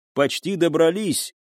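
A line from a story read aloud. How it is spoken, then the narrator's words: Shouting. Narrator (Russian): крикнула Налине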